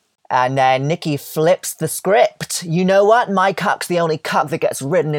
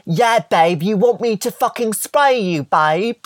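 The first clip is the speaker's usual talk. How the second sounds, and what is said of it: Put-on British accent. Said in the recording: “She does her British cock destroyers impression.”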